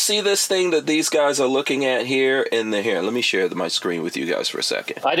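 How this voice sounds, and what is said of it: Usual voice. Nothing is said of it.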